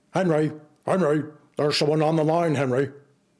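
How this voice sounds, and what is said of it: Imitates another person's voice, badly. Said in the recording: “doing a bad Nixon impression”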